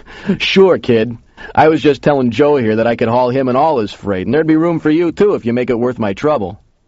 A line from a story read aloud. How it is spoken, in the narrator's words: The big guy laughed and said